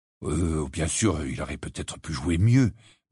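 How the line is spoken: Muttered. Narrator (French): marmonna-t-il

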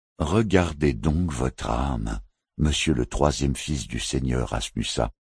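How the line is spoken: Calm knight's retort. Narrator (French): rétorqua calmement le chevalier

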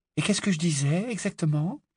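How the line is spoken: Skeptical, curious question. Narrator (French): interrogea Hermione d'un ton qui hésitait entre le scepticisme et la curiosité

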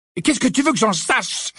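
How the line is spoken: Exclaiming. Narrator (French): s'écria-t-il

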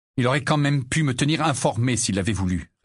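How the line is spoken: Curt retort. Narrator (French): répliqua sèchement Harry

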